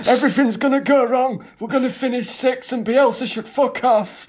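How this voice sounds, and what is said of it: Imitates a grumbling Leeds football fan. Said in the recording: “my Leeds fan impression ... Sounds quite a lot like Johnny Vegas, weirdly.”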